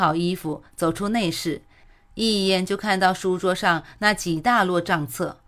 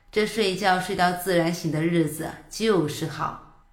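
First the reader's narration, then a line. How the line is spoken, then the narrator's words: Sighing. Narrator (Chinese): 叹了口气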